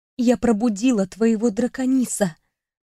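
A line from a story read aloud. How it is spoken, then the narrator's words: Mouthed whisper. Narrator (Russian): прошептала я одними губами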